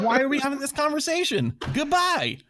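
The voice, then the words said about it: Put-on Southern US accent. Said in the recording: “I did love that accent. What state was that from? ... This is the combination of my Greensboro, North Carolina accent. Maybe a bit of Mississippi.”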